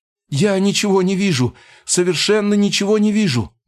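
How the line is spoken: Panicked frightened shout. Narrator (Russian): Тут же испуганно закричал мечник, его голос был полон паники

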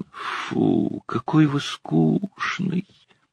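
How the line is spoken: Drawling. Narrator (Russian): протянула Нина

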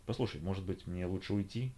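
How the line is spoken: Quiet question. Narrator (Russian): тихонько спросил я

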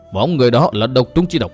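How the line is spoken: Startled mutter. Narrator (Vietnamese): Thi Vạn Toàn giật mình lẩm bẩm

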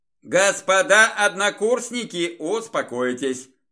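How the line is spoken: Loud, out of breath. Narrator (Russian): громко бросил я, пытаясь перевести дыхание

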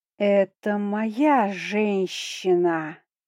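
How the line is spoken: Hissing carrying across square. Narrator (Russian): несется над площадью шипение Нага

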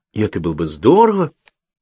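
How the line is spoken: Exclamation. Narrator (Russian): воскликнул

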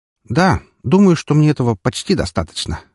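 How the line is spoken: Wry snort. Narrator (Russian): хмыкнул

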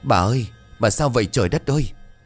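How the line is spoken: Trembling voice. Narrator (Vietnamese): giọng run rẩy

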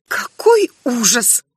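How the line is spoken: Muffled mutter through hands. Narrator (Russian): пробормотала Ринен, закрывая лицо руками

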